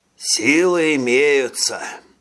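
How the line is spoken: Toucan's sigh. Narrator (Russian): тукан вздохнул

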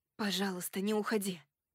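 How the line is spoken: Whispered. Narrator (Russian): прошептала

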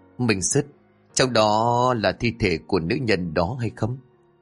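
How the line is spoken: Trembling voice. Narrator (Vietnamese): Mão liền run rẩy nói

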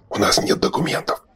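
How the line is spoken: Whisper. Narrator (Russian): шепнул Шорох Берду

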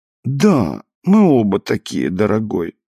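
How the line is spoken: Consoled sigh. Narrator (Russian): вздохнула утешенная

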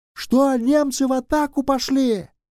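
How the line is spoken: Shouting right into ear. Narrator (Russian): прокричал Шубин в самое ухо Костюкова, чтобы тот мог расслышать

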